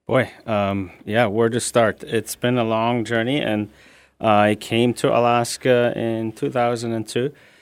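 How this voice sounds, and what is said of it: Non-Alaskan foreign accent. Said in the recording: “that's not an Alaskan accent that we're hearing from you”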